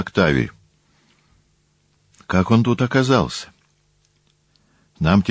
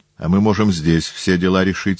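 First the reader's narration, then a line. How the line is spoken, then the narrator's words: Plain. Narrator (Russian): сказал Сульпиций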